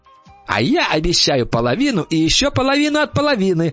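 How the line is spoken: Shouting. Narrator (Russian): закричала шестерка

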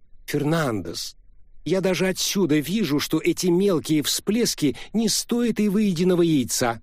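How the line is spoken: Loud. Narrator (Russian): громко произнес Морган

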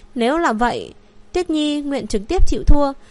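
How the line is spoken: Gentle. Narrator (Vietnamese): Phượng Tuyết Nhi chậm rãi lắc đầu, sau đó nhẹ nhàng nói

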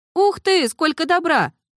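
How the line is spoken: Stifled squeak. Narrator (Russian): придушенно пискнула

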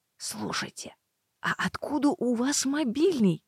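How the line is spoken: Secretive whispered question. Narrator (Russian): Шепотом, чтобы никто больше не слышал, спросила я

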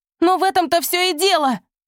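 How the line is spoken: Shouting. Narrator (Russian): крикнула Райбер

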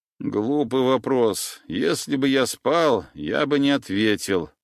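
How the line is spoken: Muffled grumbling. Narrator (Russian): пробурчал я, зарываясь лицом в подушку

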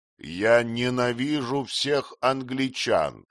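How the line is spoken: Plain. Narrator (Russian): сказал он

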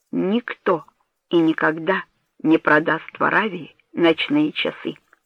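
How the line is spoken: Plain. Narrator (Russian): сказал он

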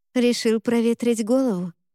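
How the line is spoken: Plain. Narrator (Russian): спросила

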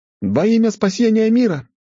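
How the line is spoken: Shouted in chorus. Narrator (Russian): хором прокричали суккубши

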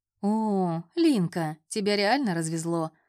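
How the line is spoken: Laughing chuckle. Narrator (Russian): хохотнул

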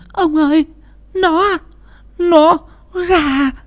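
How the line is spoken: Trembling stammer. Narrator (Vietnamese): Bà Thủy run rẩy lắp bắp

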